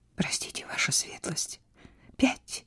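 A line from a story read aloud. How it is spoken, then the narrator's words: Trembling whisper. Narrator (Russian): задрожала и сказала шепотом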